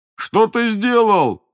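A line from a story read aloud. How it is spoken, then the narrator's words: Angry shout. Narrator (Russian): закричал он на батрака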